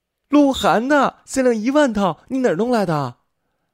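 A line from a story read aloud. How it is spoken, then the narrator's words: Surprised cry. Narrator (Chinese): 程心看到礼物的瞬间惊叫起来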